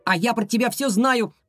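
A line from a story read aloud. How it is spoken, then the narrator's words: Shouted. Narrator (Russian): прокричал Ваня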